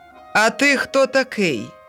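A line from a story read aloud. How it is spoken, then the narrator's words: Landowner shouting. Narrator (Ukrainian): дідич крикнув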